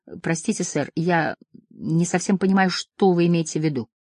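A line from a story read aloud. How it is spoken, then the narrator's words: Hesitant. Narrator (Russian): Я неуверенно посмотрел на него и сказал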